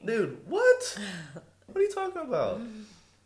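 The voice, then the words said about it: Suddenly high-pitched voice. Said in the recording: “See how my voice just went up a few octaves?”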